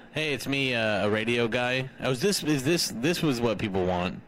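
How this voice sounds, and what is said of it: Radio announcer style voice. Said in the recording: “Radio Voice ... say something a radio guy would say ... Ew, that's horrible”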